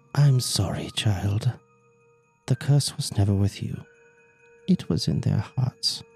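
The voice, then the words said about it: Whispered witch character voice. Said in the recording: “whispering, ... great witch voice”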